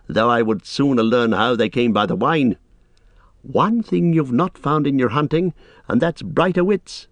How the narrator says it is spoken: laughed Legolas

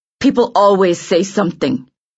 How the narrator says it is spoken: he answered bitterly

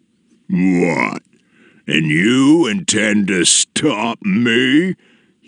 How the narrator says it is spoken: he said, his voice booming through the valleys

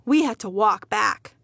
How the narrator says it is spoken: my father sighed

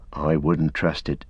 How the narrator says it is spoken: said

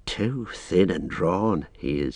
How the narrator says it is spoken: he muttered

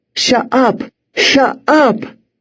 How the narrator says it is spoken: cried, labored breaths, exhausted

